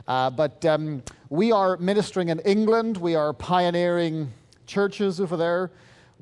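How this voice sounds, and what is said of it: Irish accent. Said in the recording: “I'm originally from Ireland, as you can probably tell from my accent.”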